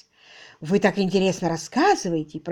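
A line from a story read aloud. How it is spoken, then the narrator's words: Husky female voice. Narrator (Russian): произнесла она своим хрипловатым голосом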